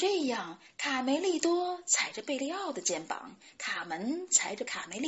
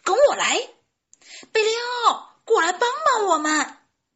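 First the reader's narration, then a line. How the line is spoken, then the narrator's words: Chicks shouting loudly. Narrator (Chinese): 小鸡们大声喊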